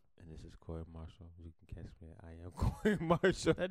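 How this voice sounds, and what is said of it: Deep, seductive sexy voice. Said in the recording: “That dude is on a mean, sexy voice.”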